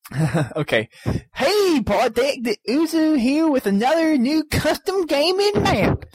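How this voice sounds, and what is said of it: Put-on hillbilly accent. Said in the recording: “I'll do the hillbilly accent ... Hillbilly ... I'm a hillbilly!”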